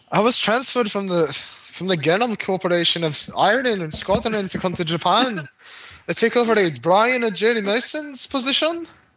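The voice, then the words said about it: Poor put-on Scottish accent. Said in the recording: “That's probably a terrible accent. ... it sounded like you were trying to do a Japanese guy doing a Scottish accent.”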